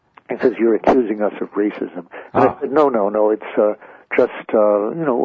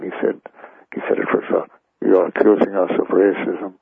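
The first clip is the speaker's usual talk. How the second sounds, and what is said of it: Imitates another person's voice, thick accent. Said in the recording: “great Kissinger impression, but it's a little thick of an accent.”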